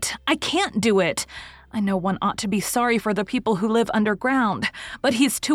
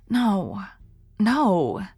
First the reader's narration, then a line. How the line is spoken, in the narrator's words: said sadly